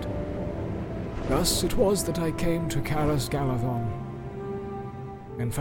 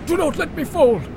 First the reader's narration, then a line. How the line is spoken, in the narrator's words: I gasped, for I felt life in me again